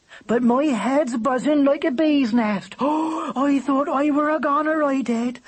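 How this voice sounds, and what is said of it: Rural regional character accent. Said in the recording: “You hear the way that bird talks. It's an accent ... very rural. A clodhopper”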